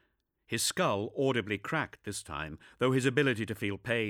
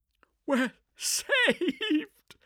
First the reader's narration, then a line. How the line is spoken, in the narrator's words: laughed the chief vox officer